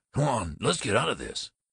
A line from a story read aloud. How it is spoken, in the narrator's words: he snapped